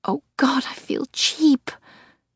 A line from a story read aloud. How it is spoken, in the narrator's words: she cries, her head falling to my shoulder